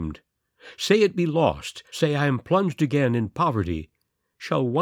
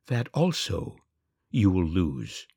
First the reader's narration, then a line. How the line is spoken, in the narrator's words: said the other